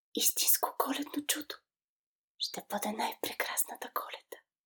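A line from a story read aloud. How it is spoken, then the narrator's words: Whisper. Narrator (Bulgarian): прошепна Никола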